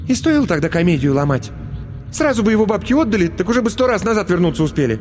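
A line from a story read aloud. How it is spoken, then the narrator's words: Irritated, curt. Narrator (Russian): раздраженно бросила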